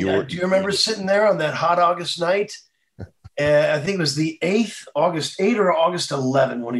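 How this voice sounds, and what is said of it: Usual voice. Nothing is said of it.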